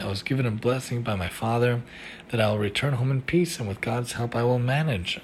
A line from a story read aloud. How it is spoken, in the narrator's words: I replied calmly